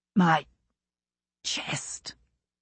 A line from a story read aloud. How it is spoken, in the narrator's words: Buck wheezed